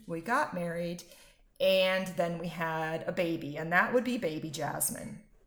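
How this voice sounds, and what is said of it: American accent. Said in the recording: “I'm sure you can tell from my accent, ... I'm American.”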